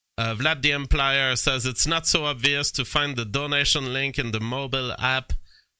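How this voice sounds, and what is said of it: French accent in English. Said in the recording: “like me, a French ... People have less difficulty hearing my accent than the UK accent.”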